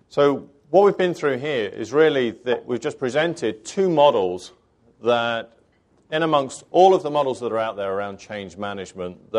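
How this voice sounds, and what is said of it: British accent. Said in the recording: “find someone with a British accent and they'll hypnotize the audience ... you can actually understand my accent.”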